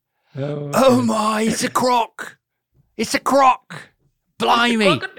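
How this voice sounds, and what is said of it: Put-on Australian accent. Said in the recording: “Australia. ... Do that accent they talk like.”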